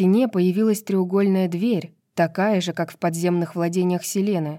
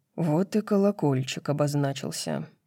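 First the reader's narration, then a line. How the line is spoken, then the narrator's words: Mutter. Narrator (Russian): пробормотал Хант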